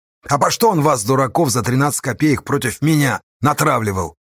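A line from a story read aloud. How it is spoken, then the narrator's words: Angry question. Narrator (Russian): зло спросила Саша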